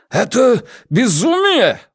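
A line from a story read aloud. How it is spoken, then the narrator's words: Exclaiming. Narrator (Russian): воскликнул Ван Эк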